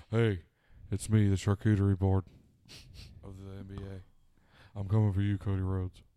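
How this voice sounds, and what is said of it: Imitates another person's voice. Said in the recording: “I do a really good Shaq impression... Not bad.”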